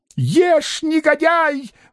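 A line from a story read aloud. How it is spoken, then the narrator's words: Desperate shout. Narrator (Russian): в отчаянии крикнула Варвара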